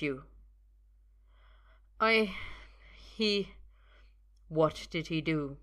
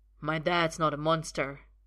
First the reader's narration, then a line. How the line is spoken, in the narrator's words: Arthur snaps